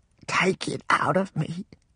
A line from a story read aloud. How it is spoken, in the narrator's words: In a faint voice, he said